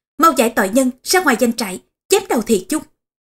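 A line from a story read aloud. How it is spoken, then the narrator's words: Thunderous shout. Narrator (Vietnamese): quát lên như sấm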